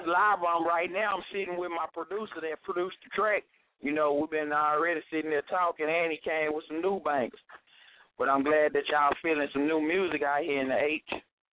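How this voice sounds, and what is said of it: Southern country Texas accent. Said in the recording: “got the country accent.”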